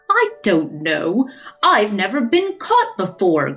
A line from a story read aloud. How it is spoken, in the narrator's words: growled Father Time